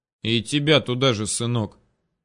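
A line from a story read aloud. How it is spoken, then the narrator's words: Gruff mutter. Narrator (Russian): буркнул мне вслед Гадес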